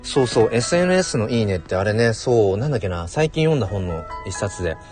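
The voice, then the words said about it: Hoarse, worn-out voice. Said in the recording (Japanese): “なんか喋ってると声声が枯れてきちゃう”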